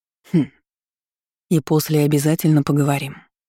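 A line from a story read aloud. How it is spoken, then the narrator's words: Completely calm. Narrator (Russian): добавил он совершенно спокойным голосом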